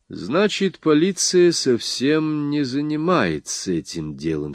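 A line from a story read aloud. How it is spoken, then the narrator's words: Plain. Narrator (Russian): спросил я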